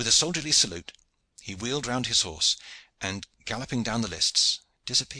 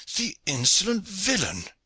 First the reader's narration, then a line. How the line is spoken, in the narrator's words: cried Pedro, glaring furiously